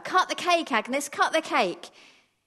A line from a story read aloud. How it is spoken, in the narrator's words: They called out to her